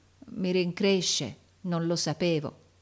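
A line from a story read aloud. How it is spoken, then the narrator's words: Stammered. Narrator (Italian): balbettò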